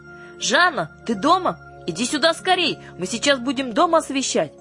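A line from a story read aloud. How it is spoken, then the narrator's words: Shouting. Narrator (Russian): закричала Юлька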